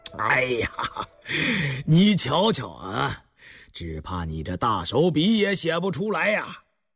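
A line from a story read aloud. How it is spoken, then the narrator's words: Choking with laughter. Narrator (Chinese): 康熙忍不住失笑，到后来竟笑不可遏，噎着气说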